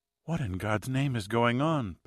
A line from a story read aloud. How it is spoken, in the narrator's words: Pat said, her voice low and vague